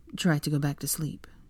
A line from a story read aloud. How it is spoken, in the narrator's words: Draco instructed quietly